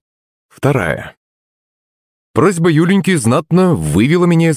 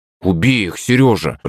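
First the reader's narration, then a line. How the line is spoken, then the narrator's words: Through gritted teeth. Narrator (Russian): процедила она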